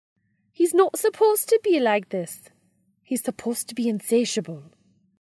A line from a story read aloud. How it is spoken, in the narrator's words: she grouses in a Scottish brogue